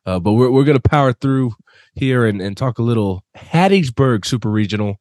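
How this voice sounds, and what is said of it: Sick, under-the-weather voice. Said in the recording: “It's been a rough week for me, if you cannot already tell by my voice. ... I've been sick all week with some type of cold or flu”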